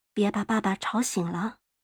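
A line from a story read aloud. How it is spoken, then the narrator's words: Soft murmur. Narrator (Chinese): 妈妈嘀咕着说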